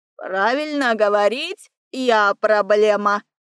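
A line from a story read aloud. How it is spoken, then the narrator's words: Ungrateful bird grumbling. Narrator (Russian): Проворчала неблагодарная пернатая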